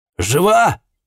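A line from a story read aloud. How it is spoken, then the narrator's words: Barked. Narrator (Russian): гаркнул Блэр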